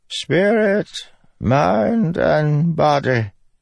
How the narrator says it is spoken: the wizened Ardent said, her voice echoing in the stone catacomb

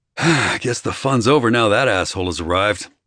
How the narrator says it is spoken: I sighed

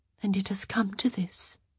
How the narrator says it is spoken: Posy murmured

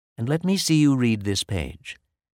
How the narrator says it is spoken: she said in a kind voice

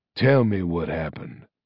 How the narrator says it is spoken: said Arcturus, his voice icy and controlled

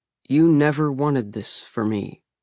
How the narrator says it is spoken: I said slowly

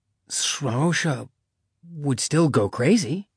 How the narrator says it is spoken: Cody breathed, because the Order would be upset

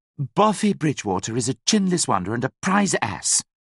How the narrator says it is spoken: snapped Priscilla

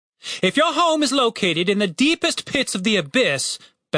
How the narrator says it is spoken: bellowed the captain

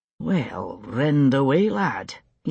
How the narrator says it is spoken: he said under his breath

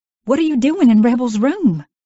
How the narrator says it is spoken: blurted out, not knowing what else to say

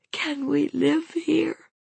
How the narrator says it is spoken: she managed in an unsteady voice

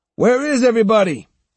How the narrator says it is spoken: he shouted

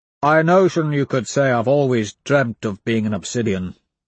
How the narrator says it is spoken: he rumbles

